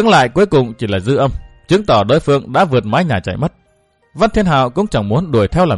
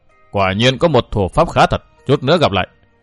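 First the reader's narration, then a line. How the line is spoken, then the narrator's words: Cold voice. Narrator (Vietnamese): Một âm thanh lạnh lùng vang tới nói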